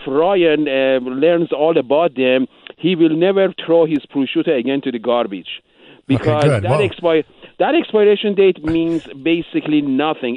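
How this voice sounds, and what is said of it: Speaks with a noticeable accent. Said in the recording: “Where are you from, man? Your accent is awesome.”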